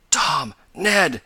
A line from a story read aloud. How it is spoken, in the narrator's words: he gasped rather than cried